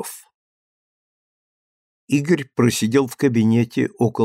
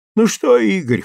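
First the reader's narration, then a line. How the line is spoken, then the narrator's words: Short guffaw. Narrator (Russian): хохотнул Костров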